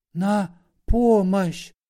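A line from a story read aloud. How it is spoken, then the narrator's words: Whispered. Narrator (Russian): шепотом произнес Васисуалий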